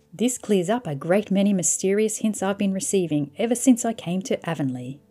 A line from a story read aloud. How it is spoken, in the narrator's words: said